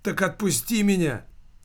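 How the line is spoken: Exclaimed. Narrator (Russian): воскликнул Килькин

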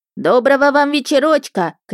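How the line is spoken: Old woman calling from afar. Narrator (Russian): крикнула из-за забора бабка Марья

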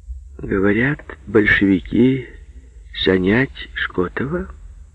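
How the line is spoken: Gentle, sweet. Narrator (Russian): ласково спросил Мемура

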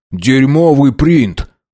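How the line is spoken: Angry snap. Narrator (Russian): зло бросил Хиллари

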